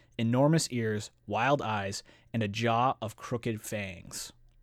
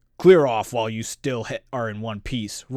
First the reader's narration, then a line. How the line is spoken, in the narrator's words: roared the creature, less sure of himself